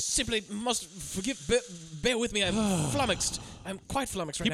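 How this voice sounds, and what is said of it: Bad impression, posh British accent. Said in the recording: “terrible Hugh Grant performance impression ... He's British.”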